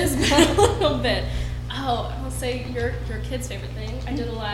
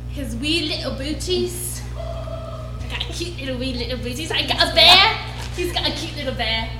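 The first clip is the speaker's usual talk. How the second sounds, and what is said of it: Merida character voice. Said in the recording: “the Merida voice”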